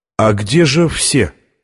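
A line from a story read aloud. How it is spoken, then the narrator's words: Plain. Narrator (Russian): спросил он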